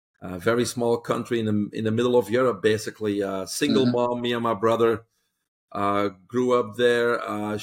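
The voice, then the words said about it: Belgian accent. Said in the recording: “you can pick up that accent ... it doesn't go away ... I'm originally from Belgium”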